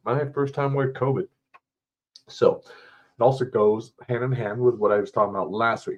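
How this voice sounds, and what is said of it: Sick-sounding voice. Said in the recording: “As you can probably hear from my voice, I am sick.”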